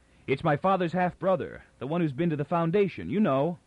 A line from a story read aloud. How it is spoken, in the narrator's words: Toran cried over his shoulder